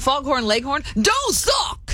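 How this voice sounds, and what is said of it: Southern gentleman cartoon chicken voice. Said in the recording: “Foghorn Leghorn, the Southern gentleman chicken... That was good.”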